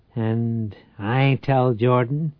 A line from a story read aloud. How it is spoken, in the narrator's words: Guizzard asked in his sour voice